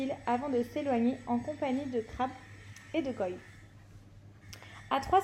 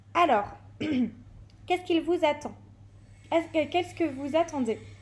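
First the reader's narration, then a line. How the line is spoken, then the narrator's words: Harsh barking woman. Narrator (French): aboya-t-elle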